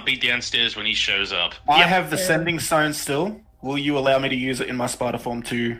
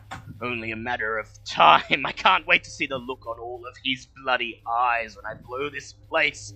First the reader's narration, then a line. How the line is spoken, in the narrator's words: he mutters